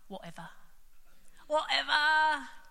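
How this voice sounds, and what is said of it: Put-on British accent. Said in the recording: “it's best done in a British accent”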